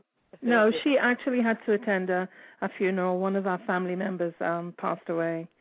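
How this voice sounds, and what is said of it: London accent. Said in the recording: “as you can hear ... by ... accent, she's a product of London”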